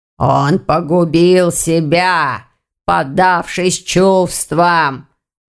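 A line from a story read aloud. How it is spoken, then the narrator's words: Hoarse. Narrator (Russian): хрипло сказал Вардван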